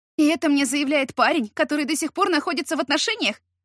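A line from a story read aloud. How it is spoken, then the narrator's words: Shouted. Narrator (Russian): выкрикнула я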